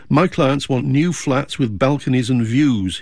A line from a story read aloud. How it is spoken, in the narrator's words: he said